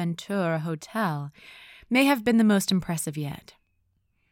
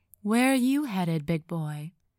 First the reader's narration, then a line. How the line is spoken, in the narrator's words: a voice purred